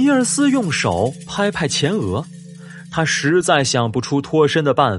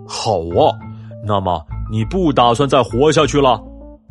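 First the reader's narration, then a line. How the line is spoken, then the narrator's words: Angry roar. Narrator (Chinese): 公熊气得咆哮起来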